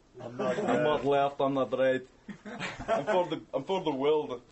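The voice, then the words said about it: Attempted German accent, sounds Irish. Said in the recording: “I can't do a German accent ... that's pretty good ... He's almost like Irish there.”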